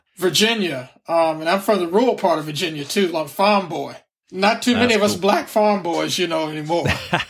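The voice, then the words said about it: Virginian Southern accent. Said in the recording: “I don't have a Texan accent. I have a Virginian accent.”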